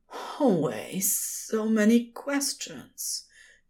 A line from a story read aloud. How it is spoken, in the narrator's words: he whispered on a hitched breath